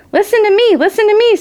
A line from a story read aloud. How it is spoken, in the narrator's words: screamed the goose